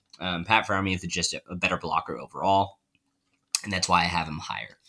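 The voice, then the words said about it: Strained, worn-out voice. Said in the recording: “my voice is dead.”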